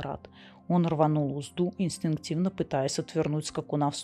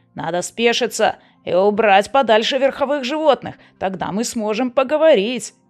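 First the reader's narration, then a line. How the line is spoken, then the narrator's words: Shouted. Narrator (Russian): крикнул ему Мерон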